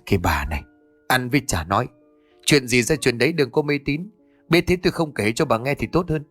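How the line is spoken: Soft irritated snap. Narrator (Vietnamese): Ông Đức trừng mắt khẽ gắt

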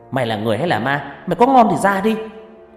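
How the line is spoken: Shouting. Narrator (Vietnamese): hét lên

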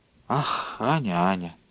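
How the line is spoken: Spoke quietly. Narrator (Russian): тихо проговорила Александра Владимировна

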